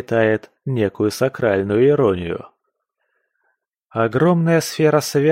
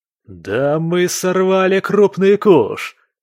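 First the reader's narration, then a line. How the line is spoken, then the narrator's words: Exclamation. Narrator (Russian): воскликнул кто-то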